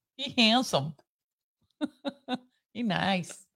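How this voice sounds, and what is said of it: Put-on Vietnamese accent. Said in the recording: “What accent is that? ... Vietnamese. My Vietnamese accent.”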